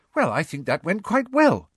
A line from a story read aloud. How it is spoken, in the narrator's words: said Hermione happily